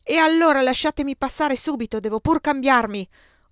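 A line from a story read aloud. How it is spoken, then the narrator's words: Furious yell. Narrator (Italian): urlai io, furente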